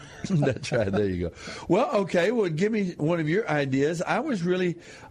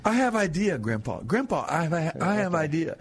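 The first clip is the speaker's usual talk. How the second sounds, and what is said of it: Imitates a young child's speech. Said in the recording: “You sound like my grandson.”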